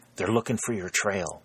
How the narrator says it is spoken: whispered the sergeant

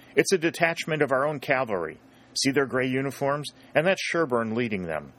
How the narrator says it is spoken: Aubrey exclaimed

